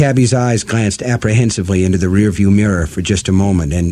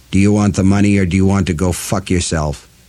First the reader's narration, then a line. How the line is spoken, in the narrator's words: Roland asked in a cold, dead voice